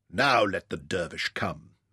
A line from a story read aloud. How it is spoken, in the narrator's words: murmured the Sirdar